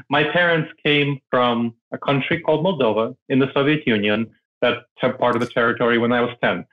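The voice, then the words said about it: Non-mainstream American foreign accent. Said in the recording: “I have an accent, right? I'm not from around here ... I don't have a mainstream American accent.”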